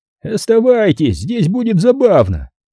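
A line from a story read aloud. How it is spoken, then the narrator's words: Giggling agreement. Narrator (Russian): поддержал его хихикающий Кирш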